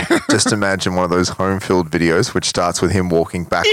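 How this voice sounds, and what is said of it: Usual voice. Nothing is said of it.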